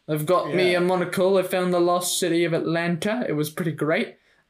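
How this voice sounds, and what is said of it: Vague put-on British accent. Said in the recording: “I got this weird accent that's like ambiguously British.”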